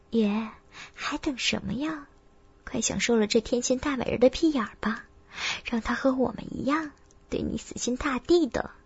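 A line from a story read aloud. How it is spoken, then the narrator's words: Excited low voice. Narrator (Chinese): 他的神情更是兴奋，低声道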